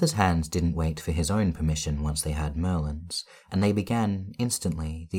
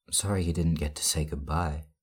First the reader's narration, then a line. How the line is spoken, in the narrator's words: Merlin quipped, and though his voice was still quiet and shaky, it almost sounded like he had managed a joke